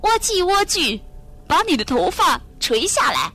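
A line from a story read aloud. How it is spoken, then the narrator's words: Imitating a witch's voice, calling. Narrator (Chinese): 他模仿女巫的声音叫道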